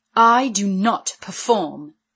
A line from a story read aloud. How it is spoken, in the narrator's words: she said haughtily